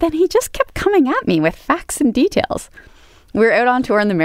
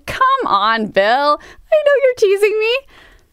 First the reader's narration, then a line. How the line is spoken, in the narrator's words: guffawed, I laughed, I whooped, I said